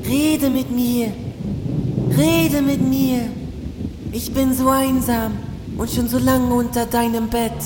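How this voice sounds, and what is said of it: Small whispering voice. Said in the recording (German): “Ein Stimmchen ... flüsterte unter dem Bett hervor”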